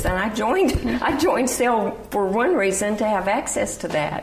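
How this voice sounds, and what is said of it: Noticeable regional accent. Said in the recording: “you probably recognize from my accent”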